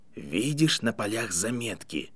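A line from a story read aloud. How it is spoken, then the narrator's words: Near-whisper question. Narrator (Russian): тихим голосом, почти шепотом спросил Дамблдор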